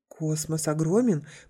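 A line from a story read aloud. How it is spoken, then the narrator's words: Babbled timidly. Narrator (Russian): пролепетал тот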